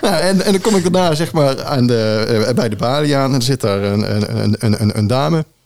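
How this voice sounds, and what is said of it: Brabant Dutch accent. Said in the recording (Dutch): “mijn Brabants accent”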